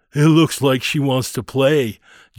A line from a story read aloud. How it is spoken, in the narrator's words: Joey sneered